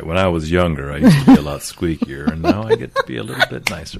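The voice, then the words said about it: Low, deep radio voice. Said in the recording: “you have your radio voice on ... I love that you said squeakier with such a low voice.”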